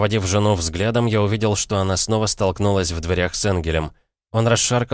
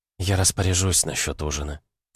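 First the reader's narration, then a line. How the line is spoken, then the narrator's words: Quiet. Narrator (Russian): тихо проговорила она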